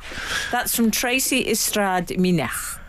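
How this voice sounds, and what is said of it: Put-on Welsh accent. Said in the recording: “I've just made up Welsh accent.”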